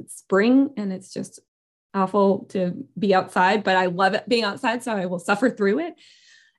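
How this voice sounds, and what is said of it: Hoarse voice. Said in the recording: “I am hoarse right now from allergies”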